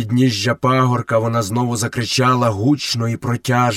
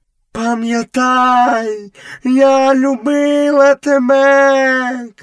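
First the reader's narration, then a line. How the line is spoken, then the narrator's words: Shout. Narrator (Ukrainian): крикнула пантера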